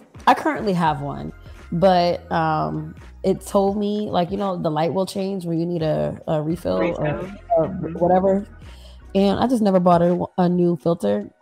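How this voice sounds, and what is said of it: Congested, stuffy-nosed voice. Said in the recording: “I sound a little congested. Like, I cannot breathe. Like, it's really hard for me to breathe.”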